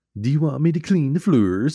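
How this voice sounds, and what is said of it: Goofy put-on Swedish accent. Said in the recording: “the crazy Swedish guy and that, like, accent ... how goofy he sounded”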